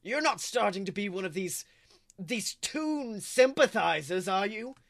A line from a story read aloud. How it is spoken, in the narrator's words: He growls at her